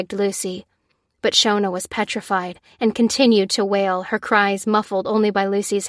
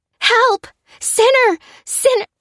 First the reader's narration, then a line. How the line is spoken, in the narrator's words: cried Shona as she lunged for the door